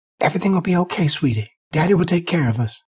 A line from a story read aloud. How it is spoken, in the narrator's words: whispered